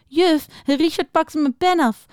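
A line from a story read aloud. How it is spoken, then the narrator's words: Giggling. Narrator (Dutch): zei Julia giechelend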